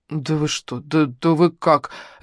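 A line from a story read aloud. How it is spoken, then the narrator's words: Flustered, scandalized mumbling. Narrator (Russian): забормотала Алена, совершенно сбитая с толку и скандализированная до нервных судорог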